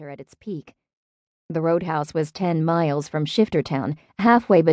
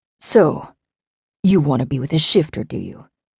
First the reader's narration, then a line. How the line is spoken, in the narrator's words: growling, and it was not really a question